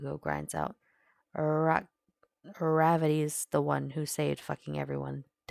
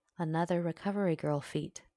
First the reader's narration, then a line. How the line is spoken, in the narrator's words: the doctor said